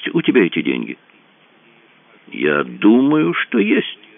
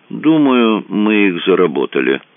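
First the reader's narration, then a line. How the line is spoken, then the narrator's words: Grim. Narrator (Russian): мрачно сказал Рэндалл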